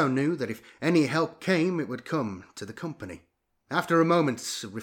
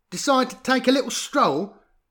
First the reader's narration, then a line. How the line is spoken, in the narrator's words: smiled